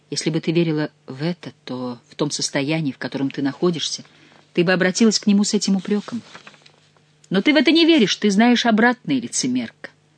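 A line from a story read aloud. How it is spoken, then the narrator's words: Gentle, affectionate. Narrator (Russian): добавила она ласково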